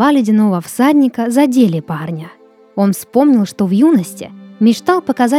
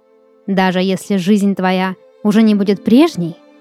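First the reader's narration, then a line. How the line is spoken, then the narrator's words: Plain. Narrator (Russian): спросил всадник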